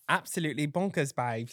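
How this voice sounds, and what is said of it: Put-on British accent. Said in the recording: “I love a good British accent. ... We're doing accent. ... Really good at this.”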